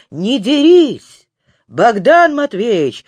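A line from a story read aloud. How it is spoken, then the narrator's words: Shouting. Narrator (Russian): закричал посланец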